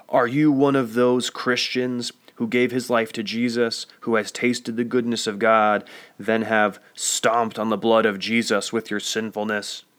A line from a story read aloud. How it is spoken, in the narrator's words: blared in a loud and angry voice